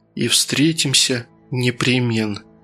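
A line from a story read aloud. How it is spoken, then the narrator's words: Whisper. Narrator (Russian): прошептала Татьяна Николаевна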